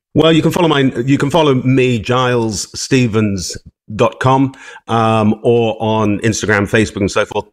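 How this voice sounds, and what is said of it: Posh British accent, James Bond-like. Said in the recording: “I just love the accent ... He does sound like James Bond ... He's posh”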